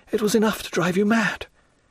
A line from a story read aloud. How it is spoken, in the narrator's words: cried Madame Danglars